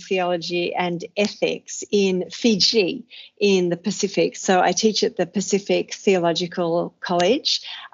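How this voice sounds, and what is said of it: Australian accent. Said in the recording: “my terrible accent that I'm Australian”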